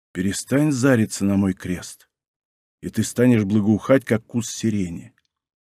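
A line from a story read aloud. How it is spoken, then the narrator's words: Very quiet. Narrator (Russian): совсем тихо промолвил Мартин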